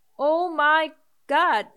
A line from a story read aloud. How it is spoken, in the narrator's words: cried out